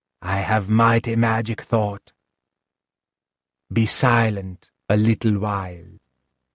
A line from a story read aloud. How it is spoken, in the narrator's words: said solemnly